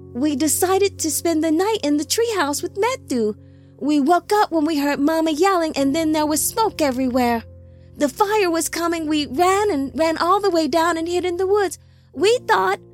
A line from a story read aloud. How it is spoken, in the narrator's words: the childling sobbed